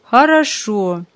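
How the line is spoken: Joyful agreement. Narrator (Russian): как-то радостно согласился отец

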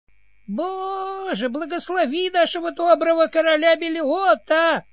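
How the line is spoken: Thin quavering elderly voice. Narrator (Russian): воскликнул престарелый советник тонким дребезжащим голоском

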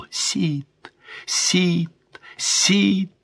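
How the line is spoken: Cry fading to whisper. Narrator (Russian): вскрикнула, шепча только одно слово

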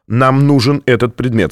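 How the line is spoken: Plain. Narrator (Russian): сказал Фонтейн

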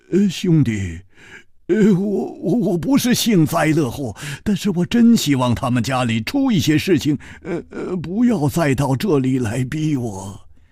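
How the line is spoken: Sigh, rueful laugh. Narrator (Chinese): 他叹了一口气，苦笑着说

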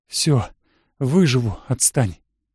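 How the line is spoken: Whisper. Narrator (Russian): прошептала

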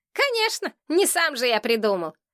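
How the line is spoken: Displeased grunt. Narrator (Russian): Кустик недовольно хмыкнул

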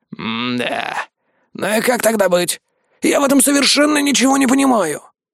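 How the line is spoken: Grumbling. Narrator (Russian): проворчал Владимир Григорьевич

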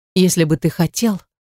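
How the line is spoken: Breathy exhale. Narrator (Russian): произношу на выдохе

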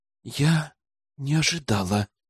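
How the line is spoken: Heavy exhale. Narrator (Russian): тяжело выдохнула она

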